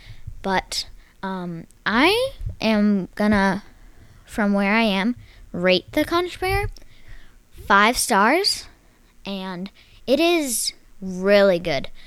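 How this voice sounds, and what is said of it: Slight Texas accent. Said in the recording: “my semi Texas accent, just with the R's and stuff”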